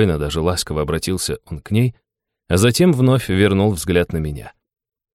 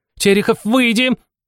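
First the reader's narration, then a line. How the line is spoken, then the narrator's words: Shrill shriek. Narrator (Russian): вновь взвизгнула заместитель директора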